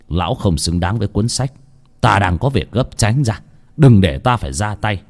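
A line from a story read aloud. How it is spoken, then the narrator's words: Stern old man's voice. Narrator (Vietnamese): Ông Lương, mặc dù già nua nhưng cũng rất khỏe mạnh, nghiêm giọng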